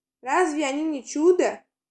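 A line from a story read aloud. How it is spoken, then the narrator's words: Exclamation. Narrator (Russian): воскликнула она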